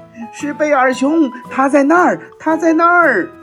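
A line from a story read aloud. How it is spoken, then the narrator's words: Birds shouting together. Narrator (Chinese): 猫头鹰和乌鸦在空中一起喊了起来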